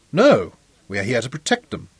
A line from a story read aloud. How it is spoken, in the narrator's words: Clinton told him stiffly